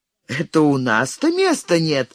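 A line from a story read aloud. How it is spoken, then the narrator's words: Laughing. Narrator (Russian): засмеялась я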